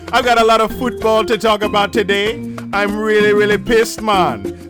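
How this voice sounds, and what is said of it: Put-on Jamaican accent. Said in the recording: “talking in a Jamaican accent.”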